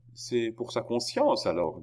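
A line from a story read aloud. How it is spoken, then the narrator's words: Cheerful. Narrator (French): dit gaiement la reine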